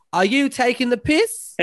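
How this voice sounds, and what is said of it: Put-on Australian accent. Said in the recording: “That was a really great Australian accent you just did there”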